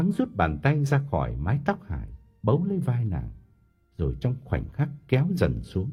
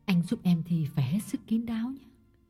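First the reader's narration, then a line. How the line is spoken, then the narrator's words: Whisper. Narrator (Vietnamese): Hải thì thầm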